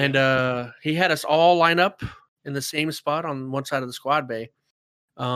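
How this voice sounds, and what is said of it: Usual voice. Nothing is said of it.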